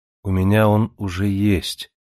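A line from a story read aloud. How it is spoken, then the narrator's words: Lifeless flat voice. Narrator (Russian): ответила Джемма безжизненным ровным голосом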